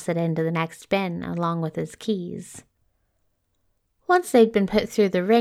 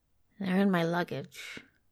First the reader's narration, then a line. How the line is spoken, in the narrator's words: Crowley muttered